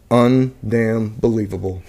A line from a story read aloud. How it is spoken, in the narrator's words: quietly said